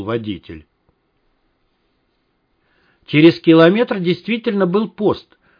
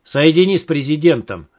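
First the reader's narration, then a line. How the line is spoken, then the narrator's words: Sharp. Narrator (Russian): резко сказал Малахов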